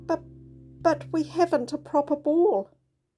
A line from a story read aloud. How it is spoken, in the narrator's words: he added sadly